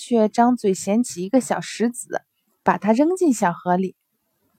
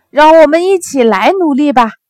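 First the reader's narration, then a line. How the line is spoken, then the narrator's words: Loud shout. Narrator (Chinese): 鸭子大喊道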